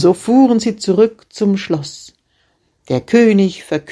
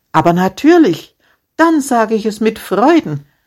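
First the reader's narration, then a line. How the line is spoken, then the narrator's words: Shepherd replying cheerfully. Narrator (German): erwiderte der Schäfer fröhlich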